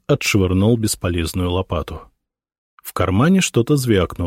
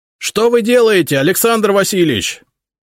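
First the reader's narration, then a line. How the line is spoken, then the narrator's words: Bewildered shout. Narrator (Russian): недоуменно крикнул Зотов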